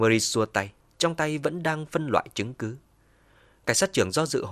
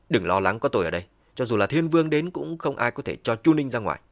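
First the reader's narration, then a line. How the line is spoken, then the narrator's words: Cold and soft. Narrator (Vietnamese): Sắc mặt Murray lạnh lùng, nhẹ giọng nói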